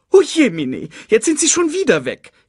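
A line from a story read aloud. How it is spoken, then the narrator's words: Whining. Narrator (German): jammerte Sasu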